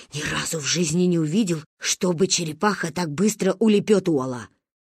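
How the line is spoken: Whisper. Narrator (Russian): Гоги шепотом говорил

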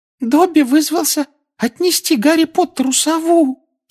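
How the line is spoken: Adoring squeak. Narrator (Russian): С обожанием на лице пропищал эльф

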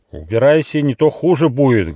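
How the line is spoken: Threatening shout. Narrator (Russian): грозно закричал Нюфа

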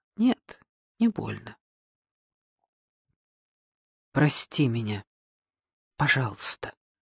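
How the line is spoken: Quiet. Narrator (Russian): Лидочка ... тихо сказала

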